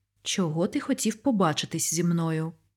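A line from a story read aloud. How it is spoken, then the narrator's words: Stern question. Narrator (Ukrainian): Суворо запитала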